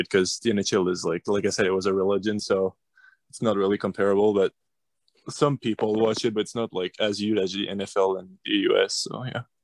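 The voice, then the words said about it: Canadian accent from Quebec. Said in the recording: “we could tell by your accent as well, you're Canadian, you're in Quebec City, Quebec”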